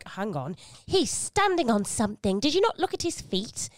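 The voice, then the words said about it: Over-affected English accent, Eliza Doolittle-like. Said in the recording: “when you do that English accent, it sounds very much like Eliza Doolittle or something like that in My Fair Lady. So it sounds very well over-affected, but nice.”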